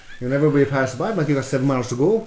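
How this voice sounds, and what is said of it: Put-on Irish accent. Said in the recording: “your Irish accent ... I started talking like this”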